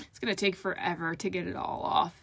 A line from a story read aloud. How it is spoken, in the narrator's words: Farrell groaned